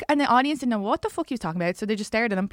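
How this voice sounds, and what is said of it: Irish accent. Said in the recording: “hearing that Irish accent talk”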